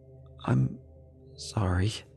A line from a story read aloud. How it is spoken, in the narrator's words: I said in a dry, panicked voice